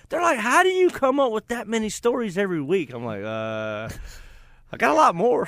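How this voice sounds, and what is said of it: Distinctive regional accent. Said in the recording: “They hear my accent, I guess. I'm distinguishable”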